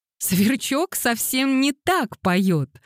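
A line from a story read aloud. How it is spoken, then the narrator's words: Laughing protest. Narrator (Russian): сквозь смех протестовала раскрасневшаяся Дейзи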